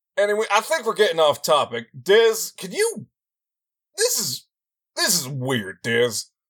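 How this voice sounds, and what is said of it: Texan accent. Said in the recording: “I know my accent's Texan”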